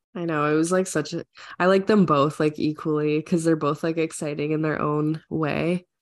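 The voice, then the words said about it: Sick, unusually deep voice. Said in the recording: “I'm really sick, so just in case I sound like a dude, that's why.”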